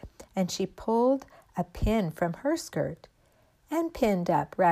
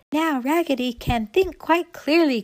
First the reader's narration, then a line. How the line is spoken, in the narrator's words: cried all the dolls